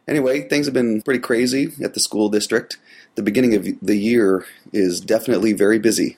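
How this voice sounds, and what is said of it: Gravelly, congested voice. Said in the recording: “It's me with cold. ... a nice gravelly radio voice”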